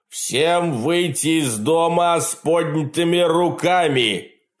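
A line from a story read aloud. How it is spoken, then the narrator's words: Amplified roaring voice. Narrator (Russian): проревел усиленный динамиком голос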